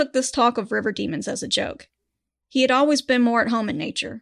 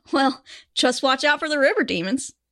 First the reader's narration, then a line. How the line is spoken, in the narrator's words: his boss chuckled and said